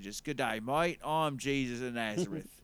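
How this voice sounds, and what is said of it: Put-on Australian accent. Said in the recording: “Australian accent”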